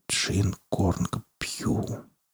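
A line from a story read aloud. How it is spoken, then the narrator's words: Entranced whisper. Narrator (Russian): прошептал он, как зачарованный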